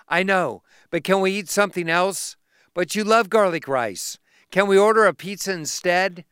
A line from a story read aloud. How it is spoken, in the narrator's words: sighed